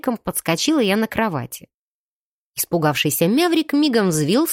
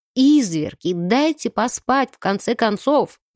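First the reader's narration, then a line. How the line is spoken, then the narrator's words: Moaning. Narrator (Russian): простонала я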